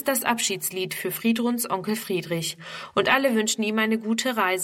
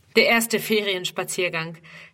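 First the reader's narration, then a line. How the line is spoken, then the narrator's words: Laughing explanation. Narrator (German): erklärt er lachend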